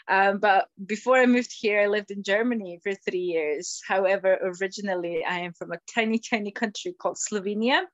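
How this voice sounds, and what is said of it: Slight Scottish accent. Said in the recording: “You've got an interesting accent. I'm picking up the Scottish accent there ... a wee bit of a Scottish accent”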